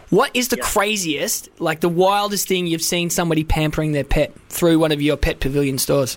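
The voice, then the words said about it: Australian accent. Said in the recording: “You sound Australian.”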